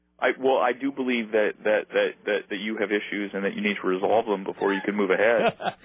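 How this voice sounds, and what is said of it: Imitates another person's voice. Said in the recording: “your phone voice sounds a lot like that of Dr. Drew from Celebrity Rehab ... Your phone voice, your mannerisms, you, Dr. Drew, separated at birth”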